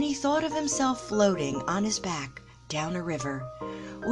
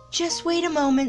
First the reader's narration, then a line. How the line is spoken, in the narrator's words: said nervously